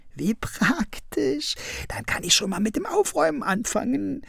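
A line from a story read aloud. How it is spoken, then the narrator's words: Giggled. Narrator (German): kicherte Krummel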